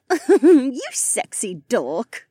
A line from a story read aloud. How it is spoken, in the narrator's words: Becca giggled